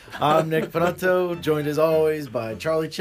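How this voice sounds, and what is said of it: Usual voice. Nothing is said of it.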